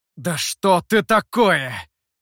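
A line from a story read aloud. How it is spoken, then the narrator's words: Through gritted teeth. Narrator (Russian): сквозь зубы процедил мастер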